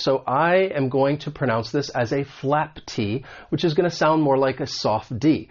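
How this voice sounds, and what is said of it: American English accent. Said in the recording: “the American accent because I am from the United States”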